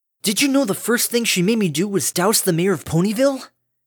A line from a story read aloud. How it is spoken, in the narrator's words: Scootaloo exclaimed incredulously